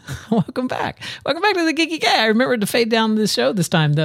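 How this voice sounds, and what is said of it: Usual voice. Nothing is said of it.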